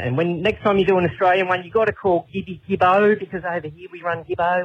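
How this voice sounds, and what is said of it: Distinctive regional accent. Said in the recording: “Love the accent.”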